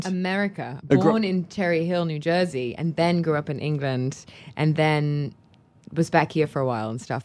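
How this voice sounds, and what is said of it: Mixed American-London accent, sounds Australian. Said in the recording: “Everybody kind of assumes that I am Australian because my accent will kind of, I guess when you combine Cherry Hill and London, you get Australia ... South Africa sometimes.”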